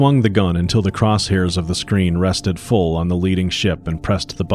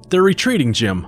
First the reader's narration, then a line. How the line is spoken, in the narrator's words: I cried